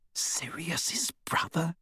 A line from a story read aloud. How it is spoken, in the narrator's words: She whispered